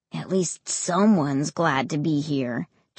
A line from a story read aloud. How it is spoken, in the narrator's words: Josh said quietly